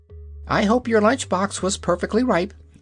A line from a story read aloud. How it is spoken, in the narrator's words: observed the yellow hen, in an anxious tone